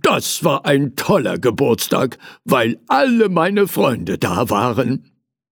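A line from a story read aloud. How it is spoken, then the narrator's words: Calling out. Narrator (German): rief er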